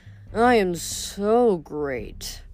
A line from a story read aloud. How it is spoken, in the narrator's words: Narcissus sighed